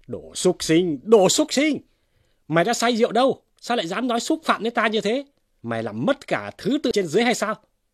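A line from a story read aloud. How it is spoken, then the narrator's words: Angry scolding. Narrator (Vietnamese): Vương Luân quát mắng rằng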